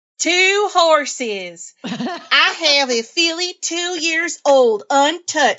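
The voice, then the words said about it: Put-on Southern US accent. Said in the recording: “I'm going to throw in a Southern accent because I can.”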